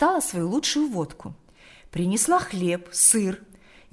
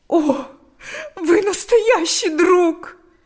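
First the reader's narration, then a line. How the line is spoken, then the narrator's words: Tearful, bursting into sobs. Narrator (Russian): сказала она и разрыдалась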